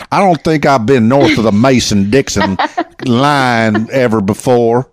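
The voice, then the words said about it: Put-on Southern country twang. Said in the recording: “I need to put my country twang on.”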